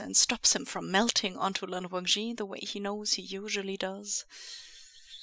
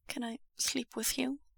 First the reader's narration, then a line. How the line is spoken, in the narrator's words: Wei Wuxian asks quietly